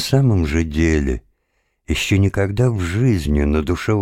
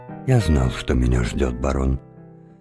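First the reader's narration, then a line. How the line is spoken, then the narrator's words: Whispered reply. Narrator (Russian): Тим шепотом ответил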